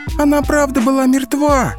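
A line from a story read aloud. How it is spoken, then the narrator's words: Tearful shrieking. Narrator (Russian): Со слезами визжала Алина вслед уходящим работникам скорой помощи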